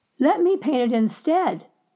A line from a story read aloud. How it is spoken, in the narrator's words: exclaimed